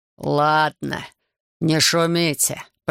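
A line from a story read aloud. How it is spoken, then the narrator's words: Deep bass, burly bearded man. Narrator (Russian): пробасил плечистый бородач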